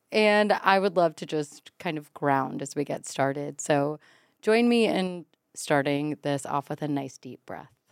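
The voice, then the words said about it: Voice sounds hungover. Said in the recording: “I'm a little bit hungover right now, as you can tell in my voice.”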